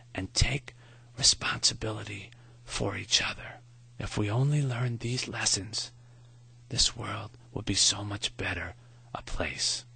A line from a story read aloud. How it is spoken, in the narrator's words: Maury whispered